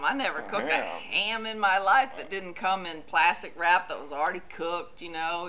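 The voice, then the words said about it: Southern American accent. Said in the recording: “I love your southern accent. ... It's beautiful when it comes out.”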